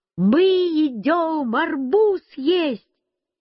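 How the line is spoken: Shouted. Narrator (Russian): Я закричал бабушке

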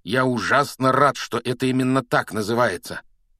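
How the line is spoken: Growled. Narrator (Russian): прорычал Рон

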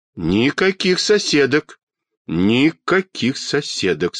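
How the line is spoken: Stern. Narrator (Russian): строго сказал детский доктор

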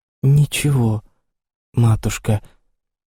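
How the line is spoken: Timid voice. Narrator (Russian): отвечала Лиза робким голосом

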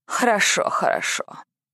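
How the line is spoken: Gruff muttering fairy. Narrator (Russian): грубовато пробормотала фея

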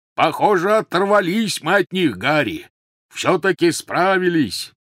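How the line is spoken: Shouted. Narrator (Russian): крикнул Хагрид

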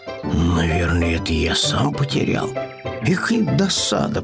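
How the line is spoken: Grumbling. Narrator (Russian): проворчал Пэтсон

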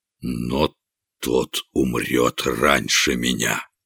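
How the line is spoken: Barely audible, malicious. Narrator (Russian): злобное пламя сверкнуло в глазах короля, и он проговорил еле слышно

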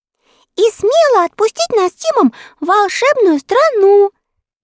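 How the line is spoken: Cheerful chiming in. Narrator (Russian): весело подхватила Энни

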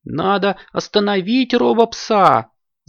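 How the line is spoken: Captain shouting. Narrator (Russian): закричал капитан Палтус

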